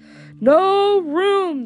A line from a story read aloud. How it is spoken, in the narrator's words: shouted